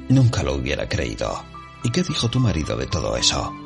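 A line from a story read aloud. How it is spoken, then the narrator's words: Asking. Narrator (Spanish): preguntó la señora Fetley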